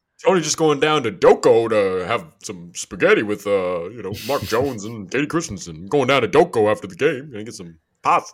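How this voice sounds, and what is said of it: Imitates another person's voice. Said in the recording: “A spot on Mark Jones by you.”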